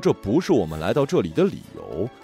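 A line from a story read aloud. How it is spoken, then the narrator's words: Louder male voice. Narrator (Chinese): 男人的声音比刚才响，他说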